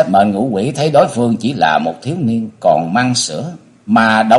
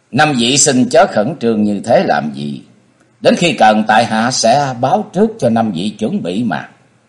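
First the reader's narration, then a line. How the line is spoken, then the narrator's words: Laughing loudly. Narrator (Vietnamese): cười to nói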